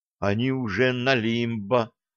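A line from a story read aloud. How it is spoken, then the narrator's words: Young woman muttering. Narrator (Russian): пробормотала девушка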